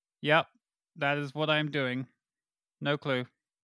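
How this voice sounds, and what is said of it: Odd alien-like speaking voice. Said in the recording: “talking like an alien that just landed on Earth”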